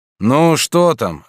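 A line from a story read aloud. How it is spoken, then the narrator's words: Displeased, irritated reply. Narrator (Russian): ответил тот недовольным и раздраженным тоном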